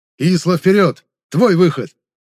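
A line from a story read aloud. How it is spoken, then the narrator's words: Shouting. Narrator (Russian): прокричал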